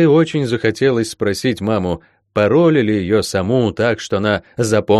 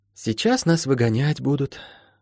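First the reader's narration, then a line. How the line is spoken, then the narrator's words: Whispered. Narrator (Russian): шепотом сказала Молли кошке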